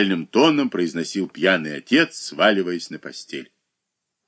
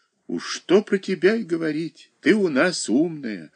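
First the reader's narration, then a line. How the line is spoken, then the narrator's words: Tender, mother. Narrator (Russian): ласково говорила мать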